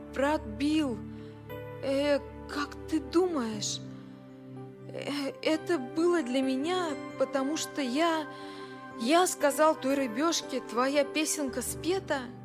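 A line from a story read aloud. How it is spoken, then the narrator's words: Stammering. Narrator (Russian): Лайл сказал, запинаясь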